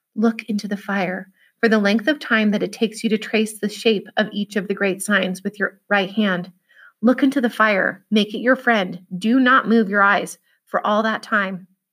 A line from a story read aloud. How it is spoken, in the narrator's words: Merriman said softly to Will in the old speech